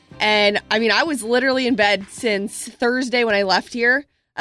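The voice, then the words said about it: Sick-sounding voice. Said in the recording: “I'm still not 100%, as you can probably tell from my voice.”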